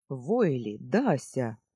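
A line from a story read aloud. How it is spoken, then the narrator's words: Loud calling. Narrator (Russian): окликнул он их громко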